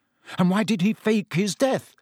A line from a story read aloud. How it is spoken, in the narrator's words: he said furiously